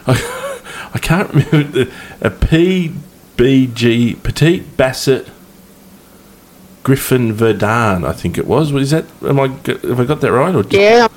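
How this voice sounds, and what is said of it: Broad Australian accent. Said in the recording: “With your Aussie accent ... couldn't be any more bogan if I tried, really”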